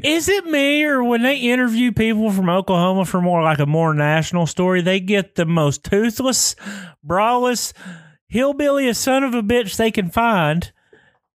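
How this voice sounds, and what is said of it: Thick Southern Oklahoma accent. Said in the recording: “your accent sounds thick probably on here ... you're a little more southern ... I got my mama's accent, man. It's thick.”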